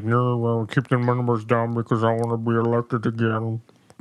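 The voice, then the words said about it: Bad mumbling impression of another's voice. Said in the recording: “worst Trump impersonation ... ever ... That was almost like he was like trying to speak with soap in his mouth.”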